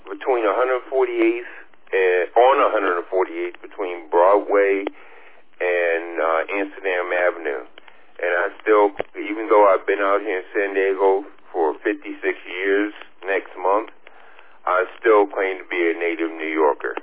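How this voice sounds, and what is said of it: New York accent. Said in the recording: “there's no question with your accent you haven't lost after all these wonderful years”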